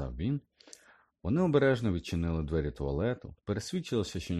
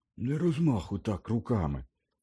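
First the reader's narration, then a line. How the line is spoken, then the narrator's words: Mutter. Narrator (Ukrainian): пробурмотів Гаррі Ронові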